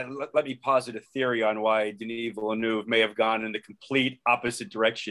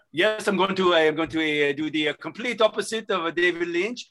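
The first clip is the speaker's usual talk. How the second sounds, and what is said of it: Put-on French accent. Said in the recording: “rehearsed that French accent for seven months ... I've heard ... four accents today, and they were all decent”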